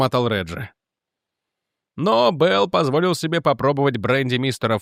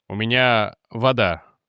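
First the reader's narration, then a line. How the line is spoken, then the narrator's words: Gloomy. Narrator (Russian): мрачно сказал инспектор Мордон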